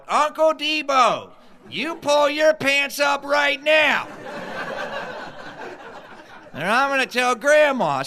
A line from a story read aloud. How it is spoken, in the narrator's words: some matronly niece yell out